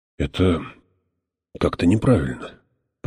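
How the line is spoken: Mumbled. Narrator (Russian): промямлил отец Хойт

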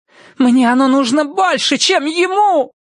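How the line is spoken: Wailing. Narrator (Russian): взвыла она

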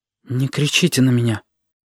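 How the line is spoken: Quiet. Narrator (Russian): тихо сказала Сашка

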